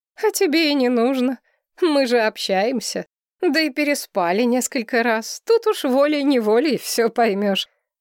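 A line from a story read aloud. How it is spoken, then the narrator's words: Laughing. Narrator (Russian): рассмеялась я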